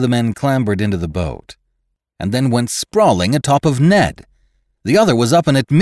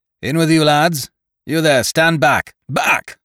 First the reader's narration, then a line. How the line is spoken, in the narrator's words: Winter roared at them again